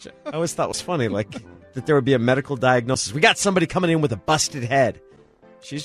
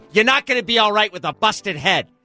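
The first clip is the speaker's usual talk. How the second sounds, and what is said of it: Old New York woman's accent. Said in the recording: “your New York woman accent? ... an old bat from New York”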